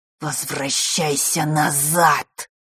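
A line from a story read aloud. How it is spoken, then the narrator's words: Hissing. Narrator (Russian): прошипела тень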